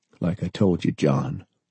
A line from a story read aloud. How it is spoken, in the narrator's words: he said softly